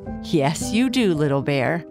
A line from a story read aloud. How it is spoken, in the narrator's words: Papa Bear said, laughing